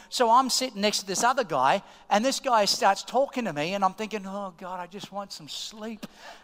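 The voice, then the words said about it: Australian accent. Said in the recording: “he heard my accent... I'm from Australia”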